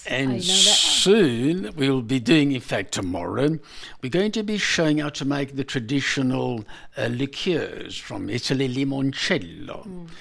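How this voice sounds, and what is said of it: Italian accent. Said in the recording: “your accent, Italian accent ... It's like music.”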